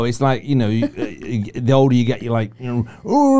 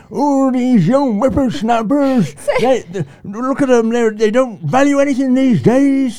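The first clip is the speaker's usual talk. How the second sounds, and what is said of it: Grumpy old man voice. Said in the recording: “you suddenly change your accent and you have a backbite as well ... my impression of getting older and getting grumpier”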